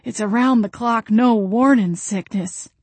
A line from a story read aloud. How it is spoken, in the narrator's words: she wheezed